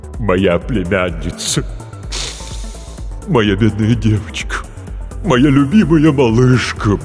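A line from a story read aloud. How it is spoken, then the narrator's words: Deep-voiced wailing. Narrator (Russian): басом запричитала трагедия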